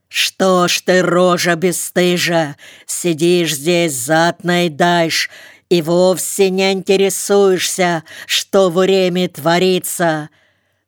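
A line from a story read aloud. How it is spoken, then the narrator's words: Deep bass shout. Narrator (Russian): басом крикнула она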